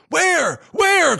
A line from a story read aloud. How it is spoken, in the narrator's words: cried Damar to his companion